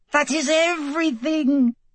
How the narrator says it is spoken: he shrieked gleefully

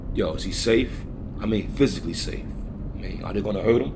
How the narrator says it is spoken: asked calmly

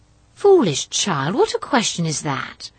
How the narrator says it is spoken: exclaimed her mother

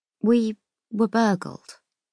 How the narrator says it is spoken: I say slowly

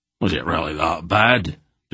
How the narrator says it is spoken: Dernick asked in a sinking voice

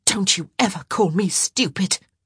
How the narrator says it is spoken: she hissed

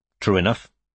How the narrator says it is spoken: said Strike

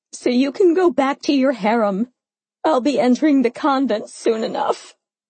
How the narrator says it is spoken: I cried, the dam finally breaking

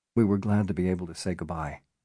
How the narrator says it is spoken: Bennett said softly

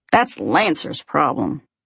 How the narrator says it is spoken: Caleb snorts

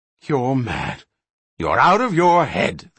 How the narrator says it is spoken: the little gnome gasped in amazement, trying vainly to hold his voice down to a whisper

